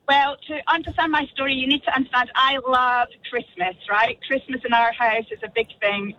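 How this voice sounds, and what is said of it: Scottish accent. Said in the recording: “your amazing Scottish accent.”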